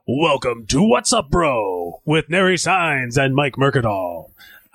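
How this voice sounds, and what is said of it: Announcer voice. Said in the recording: “can I do the announcer voice?”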